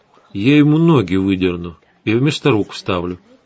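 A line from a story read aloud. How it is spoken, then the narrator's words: Completely calm promise. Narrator (Russian): совершенно спокойно пообещала Светлана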